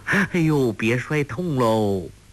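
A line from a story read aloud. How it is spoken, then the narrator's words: Laughing. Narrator (Chinese): 欧阳克笑道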